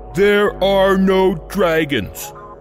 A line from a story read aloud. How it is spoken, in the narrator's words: Father roared